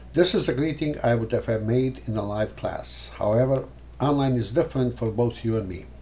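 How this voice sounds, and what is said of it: Croatian accent in English. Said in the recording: “I have an accent. I'm in this country for a long time, but have not lost the accent, ... my Croatian English”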